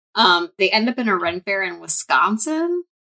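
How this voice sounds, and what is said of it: Midwest American accent. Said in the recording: “you said that with a very good Wisconsin? Midwest accent. There was a G in there.”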